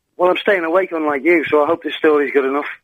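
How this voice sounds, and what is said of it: Liverpool accent. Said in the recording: “that's not a Woking accent you're kicking off with there ... I'm from Liverpool”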